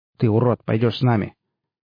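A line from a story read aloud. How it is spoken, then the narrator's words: Commanding voice. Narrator (Russian): командным голосом сказал старший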